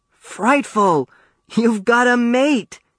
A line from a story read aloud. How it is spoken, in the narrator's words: exclaimed